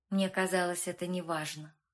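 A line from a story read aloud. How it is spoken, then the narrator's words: Dry reply. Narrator (Russian): сухо ответила и Женя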